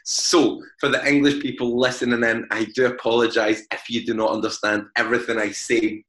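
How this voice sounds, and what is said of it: Glaswegian Scottish accent. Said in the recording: “As most people can tell by my accent, I am from Glasgow.”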